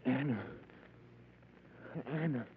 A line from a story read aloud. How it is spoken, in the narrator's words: I tried to whisper